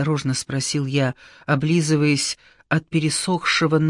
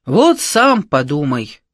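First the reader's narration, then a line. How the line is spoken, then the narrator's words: Deep bass voice. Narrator (Russian): пробасил Ивлев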